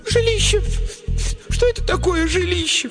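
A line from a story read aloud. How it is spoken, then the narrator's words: Sobbing. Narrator (Russian): всхлипнула другая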